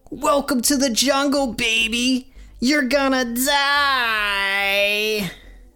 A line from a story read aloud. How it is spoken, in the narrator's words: yells